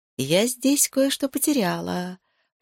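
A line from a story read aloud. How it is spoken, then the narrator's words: Purring. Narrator (Russian): промурлыкала я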